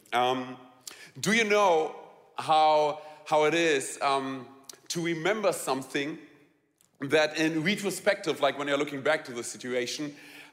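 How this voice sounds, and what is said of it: Strong German accent. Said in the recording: “I'm really sorry for my quirky English ... I have a really strong German accent”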